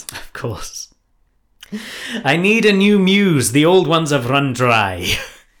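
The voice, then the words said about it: Deliberately bad put-on accent. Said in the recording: “My accent might be terribly offensive ... We've done bad accents before.”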